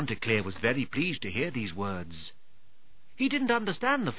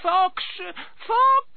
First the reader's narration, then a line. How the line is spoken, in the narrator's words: they cried out